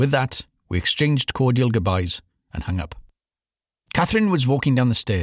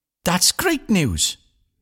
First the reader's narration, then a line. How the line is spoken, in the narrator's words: Catherine squeaked